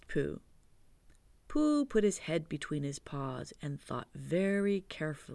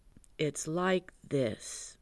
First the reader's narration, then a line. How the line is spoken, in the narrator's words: he said